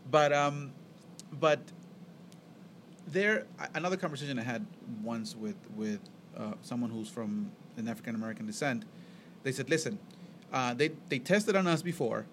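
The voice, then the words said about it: Thick foreign accent. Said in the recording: “I have a thick accent”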